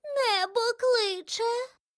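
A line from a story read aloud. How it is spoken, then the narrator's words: Feeble mouse squeak. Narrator (Ukrainian): Геть безсило пропищала миша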